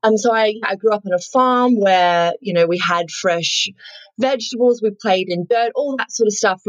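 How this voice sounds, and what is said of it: Broad Australian accent. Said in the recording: “I am Australian. My slightly bogan accent there.”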